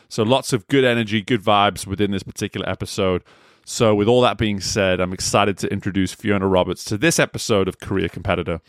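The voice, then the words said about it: English accent. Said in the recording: “whenever I get a fellow English person on, it's nice for my accent just to come through a little bit stronger”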